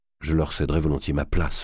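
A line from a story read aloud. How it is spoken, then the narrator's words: Murmuring. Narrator (French): murmura Charles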